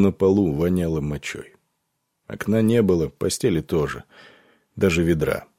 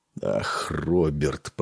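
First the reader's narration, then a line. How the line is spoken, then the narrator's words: Muttering. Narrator (Russian): пробормотал Нед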